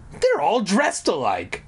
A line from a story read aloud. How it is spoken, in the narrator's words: I exclaimed